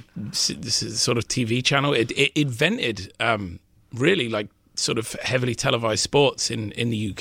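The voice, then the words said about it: British accent. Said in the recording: “people can tell from your accent, you are a former citizen of the UK”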